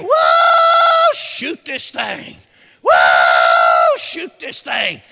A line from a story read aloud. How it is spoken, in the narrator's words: he started hollering down there